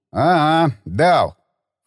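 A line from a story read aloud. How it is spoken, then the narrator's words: Snorted. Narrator (Russian): фыркнул Баграмян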